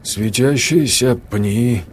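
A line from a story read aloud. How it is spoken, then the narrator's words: Uncertain mutter, forced calm. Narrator (Russian): неуверенно пробормотал Сергей, пытаясь сохранить спокойствие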